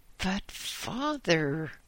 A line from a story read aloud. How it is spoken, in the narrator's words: cried a despairing Alan